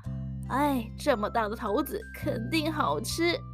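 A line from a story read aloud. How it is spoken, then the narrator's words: Old woman, smiling. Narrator (Chinese): 老婆婆笑着对老公公说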